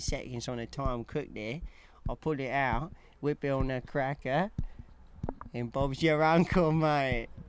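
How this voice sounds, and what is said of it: Put-on British accent. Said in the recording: “a British accent”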